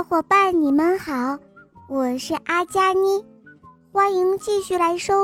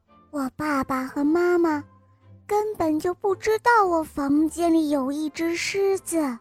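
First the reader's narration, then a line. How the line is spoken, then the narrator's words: Whispered. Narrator (Chinese): 皮亚悄声地说道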